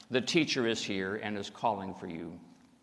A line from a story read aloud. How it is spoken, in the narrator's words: saying quietly